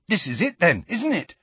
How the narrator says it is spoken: said Ron excitedly

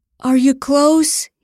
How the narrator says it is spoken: he gasped

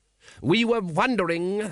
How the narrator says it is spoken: said the patrician loudly

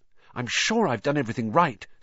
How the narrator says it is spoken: said Hermione, nervously

